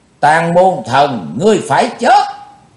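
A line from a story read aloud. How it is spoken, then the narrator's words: Shout. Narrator (Vietnamese): tiếng hét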